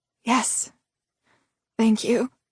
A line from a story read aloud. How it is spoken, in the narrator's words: she whispered, her voice hoarse